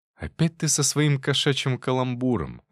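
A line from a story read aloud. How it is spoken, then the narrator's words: Sighing. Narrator (Russian): вздохнул я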